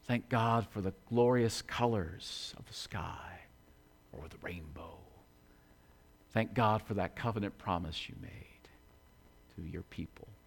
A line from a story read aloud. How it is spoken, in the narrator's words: we whisper